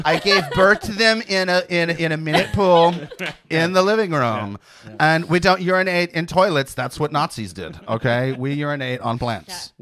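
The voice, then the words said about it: Put-on semi-Swedish hippie accent. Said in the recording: “What is this semi-Swedish accent you're doing all of a sudden? ... it's a hippie. I'm a hippie.”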